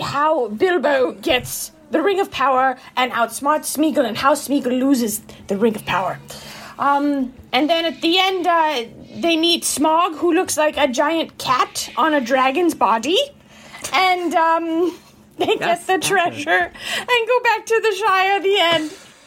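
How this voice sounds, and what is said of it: Put-on elderly posh British accent. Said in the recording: “your British accent is a 90-year-old, like, is the queen.”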